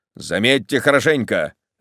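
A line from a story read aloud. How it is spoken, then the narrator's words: Sharp. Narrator (Russian): резко проговорил он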